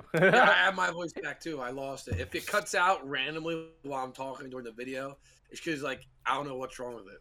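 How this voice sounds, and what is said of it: Hoarse voice, sounds like a cold. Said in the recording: “It sounds like I have a cold. ... A little bit, yeah. ... he sounded like he was talking through like a. ... I sounded like I smoked like a whole 10 pack.”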